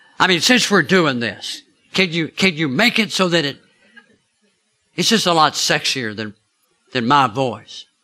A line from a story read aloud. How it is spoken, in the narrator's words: He laughed at me